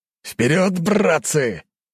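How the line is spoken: Growling. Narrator (Russian): рыкнул Коганов

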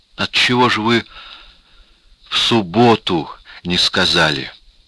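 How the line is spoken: Broken, barely audible voice. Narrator (Russian): подсеченным голосом едва протащила она

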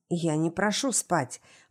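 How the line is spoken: Mumble. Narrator (Russian): Бормочу

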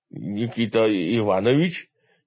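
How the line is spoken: Uncertain deep boom. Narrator (Russian): неуверенно прогудел бас нашего заботливого младшего сотрудника

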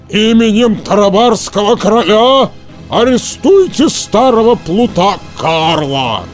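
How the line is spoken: Roaring. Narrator (Russian): голос Карабаса-Барабаса проревел

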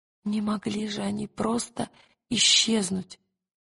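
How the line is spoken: Whisper. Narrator (Russian): прошептала она

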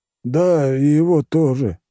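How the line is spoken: Sad sighing servant. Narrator (Russian): грустно вздохнул слуга

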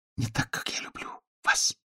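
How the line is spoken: Whispered. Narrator (Russian): прошептала она снова

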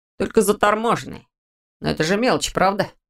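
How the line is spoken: Sarcastic question. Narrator (Russian): язвительно спросил он

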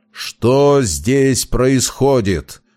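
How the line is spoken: Booming over the noise. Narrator (Russian): перекрывая шум, прогремел чей-то голос

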